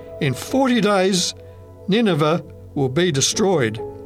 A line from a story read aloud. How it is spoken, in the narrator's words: I called out as loudly as I could